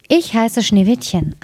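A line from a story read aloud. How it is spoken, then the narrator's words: Plain. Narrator (German): antwortete es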